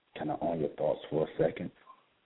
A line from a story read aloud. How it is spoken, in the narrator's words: I whisper in your ear